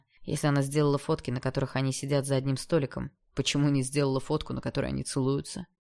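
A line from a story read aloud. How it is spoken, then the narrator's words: Plain. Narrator (Russian): спросил он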